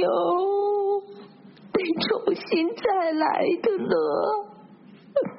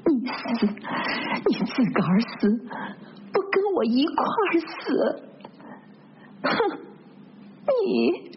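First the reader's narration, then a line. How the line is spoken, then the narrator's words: Resentful. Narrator (Chinese): 他这话是表示一肚子的怨恨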